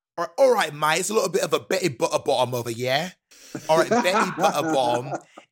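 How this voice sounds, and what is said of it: Put-on Cockney accent. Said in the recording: “give me your best Cockney accent, can you say Betty Butterbottom in your best Cockney accent?”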